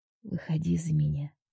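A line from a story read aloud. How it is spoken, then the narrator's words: Whisper. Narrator (Russian): прошептал он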